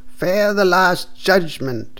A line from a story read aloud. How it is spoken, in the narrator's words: cried the priest loudly and angrily